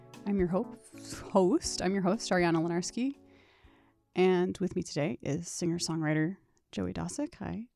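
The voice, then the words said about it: Soothing, slightly sick-sounding voice. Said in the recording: “Your voice is so soothing. ... I'm a little under the weather, so I think maybe that's why my voice is...”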